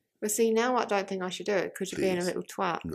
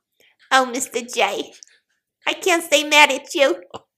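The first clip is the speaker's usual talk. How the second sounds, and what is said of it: Harley Quinn character voice. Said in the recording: “my Harley Quinn impression”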